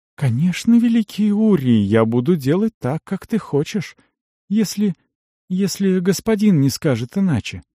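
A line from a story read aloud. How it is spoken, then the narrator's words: Timid clarification. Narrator (Russian): уточнила, робко взглянув на мага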